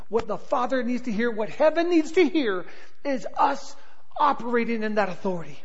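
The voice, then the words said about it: Southern-surfer American accent. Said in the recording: “I'm a little louder because I'm loud and I'm excitable ... I've got this weird, like, Southern, like, surfer accent.”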